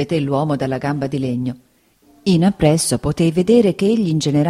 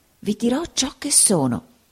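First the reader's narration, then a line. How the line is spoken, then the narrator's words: Whispering. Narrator (Italian): bisbigliò il signor Creakle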